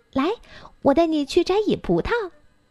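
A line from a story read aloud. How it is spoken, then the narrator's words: Smiling. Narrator (Chinese): 米莉笑着说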